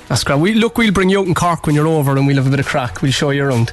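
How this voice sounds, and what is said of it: Strong Cork Irish accent. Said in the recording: “Your accent's so Cork, ain't it? ... is actually voted the most Cork man in Cork”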